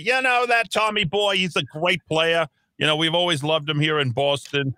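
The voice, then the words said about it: Weak put-on Boston accent. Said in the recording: “that's a terrible Boston accent ... I'm, I'm trying my best”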